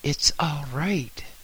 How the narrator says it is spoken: said soothingly

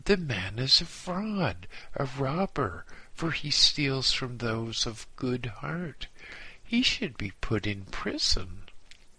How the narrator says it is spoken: exclaimed

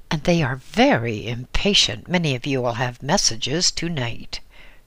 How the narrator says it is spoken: she exclaimed to her audience in an aside

